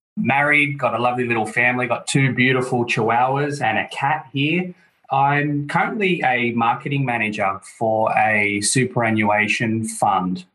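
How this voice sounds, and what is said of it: Australian accent. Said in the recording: “I'm from Sydney, Australia, as your listeners could probably tell by the accent.”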